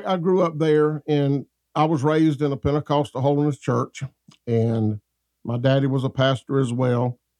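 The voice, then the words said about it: Southern US accent. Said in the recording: “you can tell by my accent, we're close to Georgia.”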